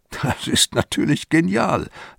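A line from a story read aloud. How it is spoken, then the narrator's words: Chuckling to himself. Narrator (German): lacht in sich hinein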